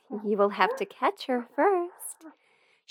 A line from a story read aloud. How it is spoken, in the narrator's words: She gave him a little chuckle before she said